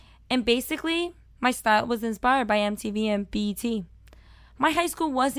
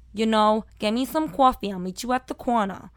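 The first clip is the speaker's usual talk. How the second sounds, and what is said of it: Thick Brooklyn accent. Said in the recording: “I was talking with an extremely thick Brooklyn accent.”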